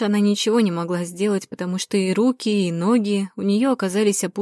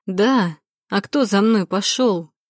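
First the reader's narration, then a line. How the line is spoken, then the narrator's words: Irritated growl. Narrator (Russian): Кара раздраженно зарычала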